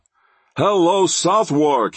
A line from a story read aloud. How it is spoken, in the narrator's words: he cried